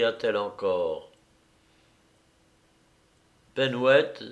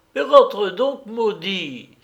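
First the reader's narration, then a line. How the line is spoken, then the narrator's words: Mother exclaiming. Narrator (French): s'écria sa mère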